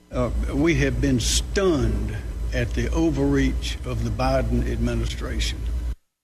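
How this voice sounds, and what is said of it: Slow, calm South Carolina accent. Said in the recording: “South Carolina. Don't you love that accent? Just makes me feel nice and calm. Everything goes a little slower.”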